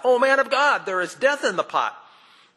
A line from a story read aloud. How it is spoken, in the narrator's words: they cried out